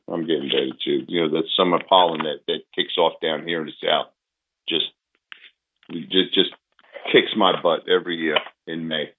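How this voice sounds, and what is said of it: Slightly rough, hoarse voice. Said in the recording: “My voice is much better, as you can tell. It's still a little rough around the edges”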